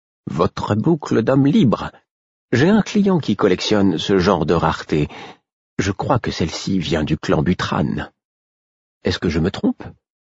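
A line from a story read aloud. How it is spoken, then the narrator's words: Uncertain tone. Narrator (French): Elle avait posé la question d'un ton incertain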